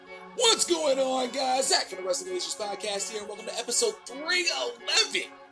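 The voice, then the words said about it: Voice cracks mid-sentence. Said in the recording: “my voice cracked”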